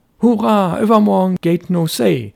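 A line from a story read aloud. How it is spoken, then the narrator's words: Excited boy's call. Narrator (German): rief der Junge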